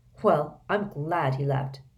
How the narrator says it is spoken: said Harry coldly

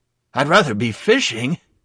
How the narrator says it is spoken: he wheezed

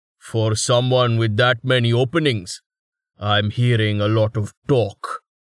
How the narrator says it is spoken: the swordsman growled

